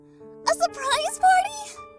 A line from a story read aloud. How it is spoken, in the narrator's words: squealed, rattling with excitement